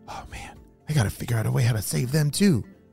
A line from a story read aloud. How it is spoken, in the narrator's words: Phoenix whispered to himself